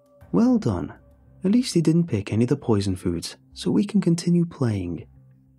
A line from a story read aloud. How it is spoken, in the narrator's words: he said cheerfully, but I could hear the disappointment